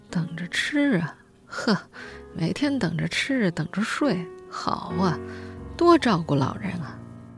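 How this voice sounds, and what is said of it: Quiet muttering. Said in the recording (Chinese): “小声嘀咕”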